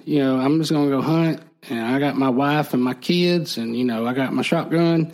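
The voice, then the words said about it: Put-on Southern accent. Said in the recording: “Was he from the South? ... the accent you're getting”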